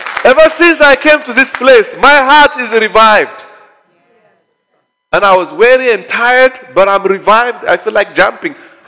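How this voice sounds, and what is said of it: Screaming at top volume. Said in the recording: “I'm so sorry that your ear is hurting. I'm screaming to the top of my lung.”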